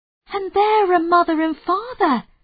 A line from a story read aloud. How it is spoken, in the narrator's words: cried Molly